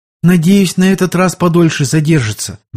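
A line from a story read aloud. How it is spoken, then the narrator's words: Agitated, after a deep sigh. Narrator (Russian): борясь с охватившим ее волнением и глубоко вздохнув, произнесла Анна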